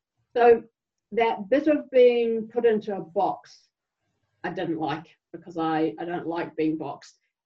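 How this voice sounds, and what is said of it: English with German accent. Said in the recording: “I happen to speak English with a German accent”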